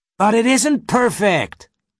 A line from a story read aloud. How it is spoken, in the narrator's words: cried Jack